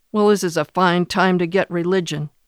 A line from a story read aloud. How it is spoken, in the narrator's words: Reeves snorted